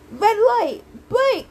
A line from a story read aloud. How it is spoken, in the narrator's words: yelled Inga